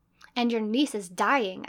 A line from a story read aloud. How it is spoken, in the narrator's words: I said savagely